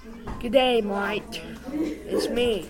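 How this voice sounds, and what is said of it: Put-on Australian accent. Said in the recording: “my Aussie accent”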